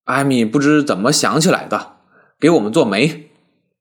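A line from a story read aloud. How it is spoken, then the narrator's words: Tipsy, grinning. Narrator (Chinese): 一鹏多喝了两杯酒，有了几分醉意，忽然笑嘻嘻地说道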